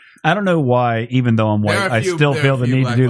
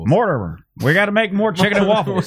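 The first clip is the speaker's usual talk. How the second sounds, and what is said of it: Exaggerated stereotypical white-guy voice. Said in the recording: “do the white voice”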